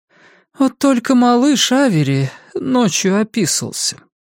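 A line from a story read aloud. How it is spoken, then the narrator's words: Sighing. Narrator (Russian): она вздохнула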